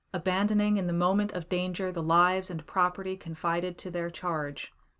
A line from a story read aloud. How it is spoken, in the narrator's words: went on the voice evenly